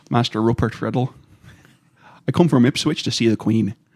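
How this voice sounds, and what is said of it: Put-on lower-class pig farmer accent. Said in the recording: “I had to do a lower class accent for when I played a pig farmer ... let's hear the pig farmer accent”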